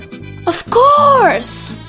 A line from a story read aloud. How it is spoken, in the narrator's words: yelled Sol, happily